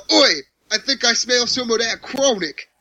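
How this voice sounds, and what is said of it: Poor imitation of a British accent. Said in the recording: “British dude ... my sad impersonation”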